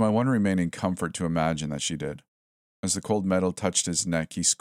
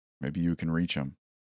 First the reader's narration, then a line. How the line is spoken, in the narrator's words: I thought quietly